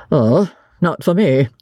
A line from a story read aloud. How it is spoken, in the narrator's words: said blandly